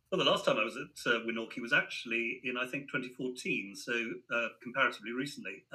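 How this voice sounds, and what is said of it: British accent. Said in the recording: “Your British accent is spot on, too”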